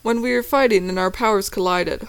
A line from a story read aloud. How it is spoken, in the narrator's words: Hunter exclaims